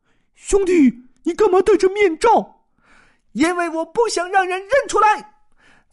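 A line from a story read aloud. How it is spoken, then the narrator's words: Tiny dog speaking. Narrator (Chinese): 那只个子顶小顶小、名叫蚕豆的吉娃娃开口说道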